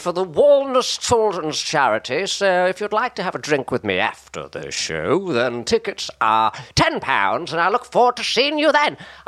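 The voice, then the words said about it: Richard O'Brien impression, very high then low. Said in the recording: “That impression, by the way. ... Richard O'Brien goes very high and then he goes very low, so like that.”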